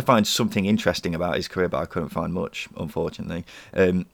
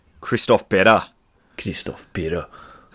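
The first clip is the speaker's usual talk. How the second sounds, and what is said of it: Attempted Scottish accent, sounds Russian. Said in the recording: “It's quite an enjoyable name to say. In a Scottish accent as well. ... Why was it Russian?”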